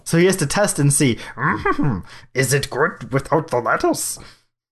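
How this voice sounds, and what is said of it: Bad Yoda character voice. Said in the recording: “That is a terrible Yoda impression.”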